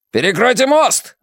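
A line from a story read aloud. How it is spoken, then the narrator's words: Shout. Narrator (Russian): закричал один из них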